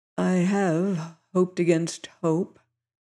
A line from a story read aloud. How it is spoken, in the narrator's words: he replied in a voice faltering with emotion